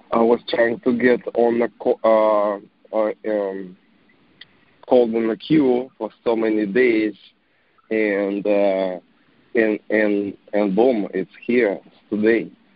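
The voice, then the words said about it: Slightly unwell-sounding voice. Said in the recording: “I'm slightly under the weather. My voice might not sound, might sound differently.”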